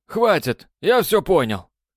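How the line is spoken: Shouting over rushing water. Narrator (Russian): прокричал он сквозь шум падающей воды

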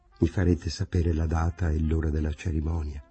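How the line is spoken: Murmured. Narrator (Italian): si era limitata a mormorare

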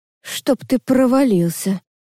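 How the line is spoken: Groaning. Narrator (Russian): простонала я

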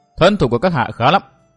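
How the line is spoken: Cold. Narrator (Vietnamese): Trạm tình nữ lạnh lùng nói

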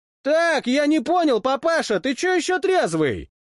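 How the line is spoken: Yelling from doorway. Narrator (Russian): С порога заорал Баталин

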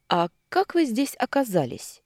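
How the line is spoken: Calm, friendly voice. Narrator (Russian): голос прозвучал спокойно и доброжелательно

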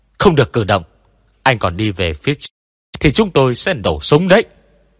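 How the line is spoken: Repeated group shouting. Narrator (Vietnamese): Tiểu đoàn trưởng Triệu và cấp dưới liên tục hét

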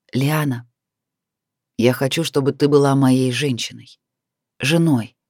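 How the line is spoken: Said with a smile. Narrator (Russian): с улыбкой на устах произнес мужчина

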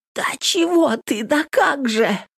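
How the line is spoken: Hoarse wheezing. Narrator (Russian): сипела Нютка

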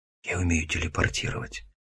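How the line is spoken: Nervous whisper. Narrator (Russian): шепнул я, сразу вспотев

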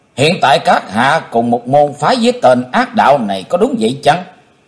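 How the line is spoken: Stern speech. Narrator (Vietnamese): Chí Tôn nghiêm nghị

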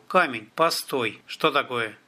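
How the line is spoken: Quiet call. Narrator (Russian): он негромко позвал

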